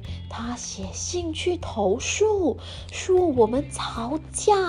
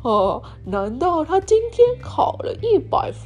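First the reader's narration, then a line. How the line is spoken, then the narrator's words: Smiling. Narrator (Chinese): 爸爸笑着说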